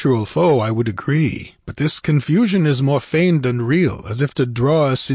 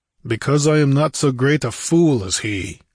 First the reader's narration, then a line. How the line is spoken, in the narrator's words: grunted Conan